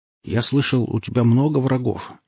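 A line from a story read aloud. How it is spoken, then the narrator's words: Uncertain, cautious question. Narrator (Russian): неуверенно спросил Алексей, словно пробовал тонкий лед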